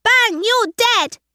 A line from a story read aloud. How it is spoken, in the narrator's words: cried Lucas behind his brother